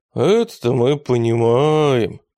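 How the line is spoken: Sighing. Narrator (Russian): вздохнул банкир

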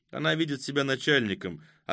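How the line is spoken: Even, level voice. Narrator (Russian): ответил Кузьма таким же ровным голосом

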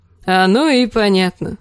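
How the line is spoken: Laughing. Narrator (Russian): засмеялся он

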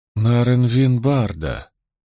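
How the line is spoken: Grim repetition. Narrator (Russian): мрачно повторила Найниф

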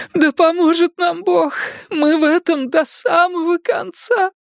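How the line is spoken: Sobbing. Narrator (Russian): Рыдание сорвалось с ее губ

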